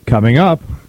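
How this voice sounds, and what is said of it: Imitates a TV weather announcer. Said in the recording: “my impression of the Weather Channel”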